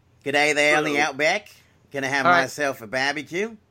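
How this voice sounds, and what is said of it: Exaggerated Australian accent. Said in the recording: “your terrible Australian accent”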